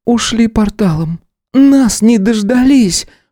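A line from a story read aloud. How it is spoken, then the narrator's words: Breathless. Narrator (Russian): выдохнула Стелла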